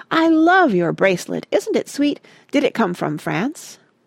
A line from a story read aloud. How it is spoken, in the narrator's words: was saying in an animated voice